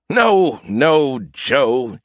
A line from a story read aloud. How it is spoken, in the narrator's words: he chuckled